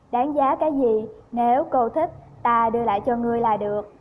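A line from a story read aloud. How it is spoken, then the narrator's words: Smiling. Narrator (Vietnamese): Chân Tư mỉm cười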